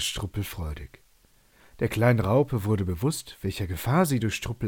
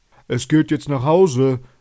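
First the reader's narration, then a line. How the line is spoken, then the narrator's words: Calling out. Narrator (German): rief der Fahrer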